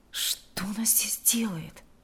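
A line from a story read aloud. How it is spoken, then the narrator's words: Indignant whisper. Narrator (Russian): Возмущенно прошептал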